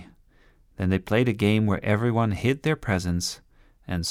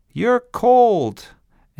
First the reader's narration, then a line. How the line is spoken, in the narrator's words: they yelled